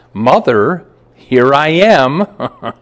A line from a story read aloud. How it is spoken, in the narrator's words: in a clear voice, said